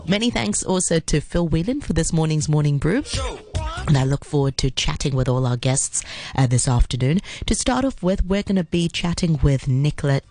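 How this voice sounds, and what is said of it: Deep voice, recovering from illness. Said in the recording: “as I recover from, I think it's the flu. I think my voice is still a little bit deep”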